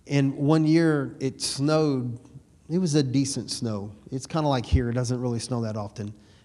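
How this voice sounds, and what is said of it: Slight Texan twang. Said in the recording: “Rust, Texas is where my family is from. That's the redneck hillbilly side. And that's why I got a little twang in my voice.”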